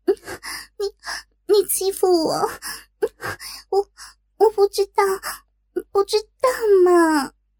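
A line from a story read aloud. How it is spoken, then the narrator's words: Shy, crying. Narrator (Chinese): 小文羞的……一边摇着头一边哭道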